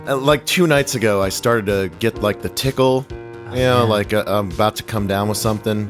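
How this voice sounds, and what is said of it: Raspy, slightly hoarse voice. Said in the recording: “your voice is a little... You told me it was a little raspy”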